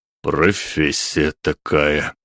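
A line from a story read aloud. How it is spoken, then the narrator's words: Breathed out. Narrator (Russian): выдохнул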